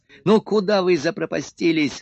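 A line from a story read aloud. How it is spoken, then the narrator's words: Shouting. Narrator (Russian): закричал он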